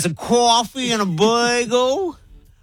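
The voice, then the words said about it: Put-on New York accent. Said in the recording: “Wasn't a bad New York accent. ... It was not bad.”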